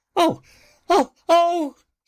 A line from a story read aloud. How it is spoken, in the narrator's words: squeaked the mouse